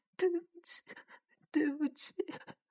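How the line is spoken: Choked, tearful. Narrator (Chinese): 他竟然好像哭了，哽咽的说

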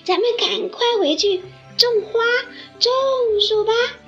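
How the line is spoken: Animals shouting in unison. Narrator (Chinese): 小动物们齐声喊起来

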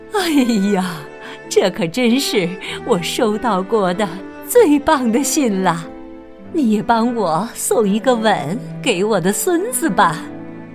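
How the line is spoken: Grandmother laughing. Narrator (Chinese): 奶奶笑着说

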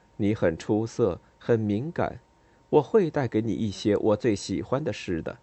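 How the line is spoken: Quiet, wry, resigned. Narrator (Chinese): 他很无奈的微笑了一下，低声说

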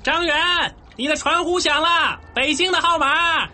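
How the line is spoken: Shouting from corridor. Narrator (Chinese): 同寝室的阿香婆站在走廊上大喊

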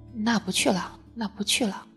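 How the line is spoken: Low sigh. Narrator (Chinese): 那谁低低的叹了口气，说

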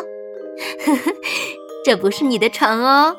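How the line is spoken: Mother, laughing. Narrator (Chinese): 妈妈却笑着说

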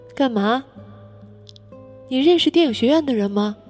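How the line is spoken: Sighing. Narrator (Chinese): 王小贱叹了一口气

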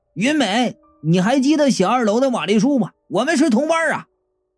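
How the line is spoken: Calling out. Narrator (Chinese): 我就叫道

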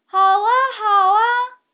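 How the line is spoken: Loud, elated shouting. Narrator (Chinese): 梅根和苏菲大声地喊着，他们也兴高采烈地

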